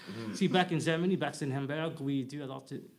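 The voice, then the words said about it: Switching between put-on foreign accents. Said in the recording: “switching accents back and forth ... a little South African there”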